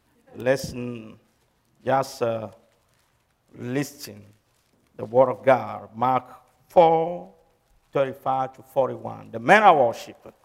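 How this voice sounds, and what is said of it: Speaks with a noticeable accent. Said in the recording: “Don't worry about my accent.”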